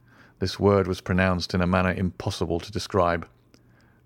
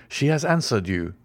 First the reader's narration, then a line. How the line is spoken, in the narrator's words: cried Franz